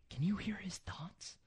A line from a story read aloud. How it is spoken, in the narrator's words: Cassie whispered